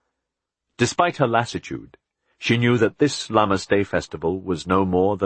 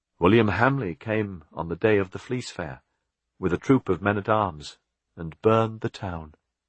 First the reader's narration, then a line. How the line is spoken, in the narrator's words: Aliena said